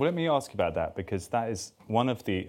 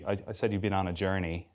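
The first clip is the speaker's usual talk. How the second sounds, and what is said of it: Put-on American accent. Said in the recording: “It's an American phrase that I just uttered... It's a good accent.”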